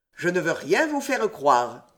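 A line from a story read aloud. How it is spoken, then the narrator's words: Cold. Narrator (French): dit froidement Saint-Germain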